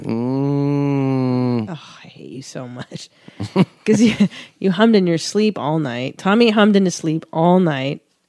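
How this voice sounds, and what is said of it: Sick-sounding voice. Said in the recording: “I'm sick, as you can hear in my voice.”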